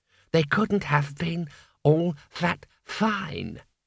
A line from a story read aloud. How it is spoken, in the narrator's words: it said calmly